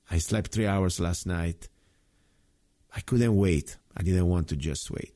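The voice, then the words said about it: Tired voice. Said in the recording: “My voice sounds tired. I can't even speak straight.”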